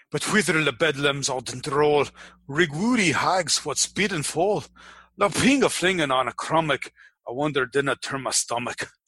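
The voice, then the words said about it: Overtly fake Americanized Scottish accent. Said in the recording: “speak in a Scottish accent. When I do, it's that overtly fake Americanized Scottish accent.”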